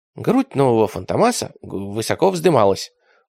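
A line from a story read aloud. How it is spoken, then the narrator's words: Timid continuation. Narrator (Russian): робко продолжил раб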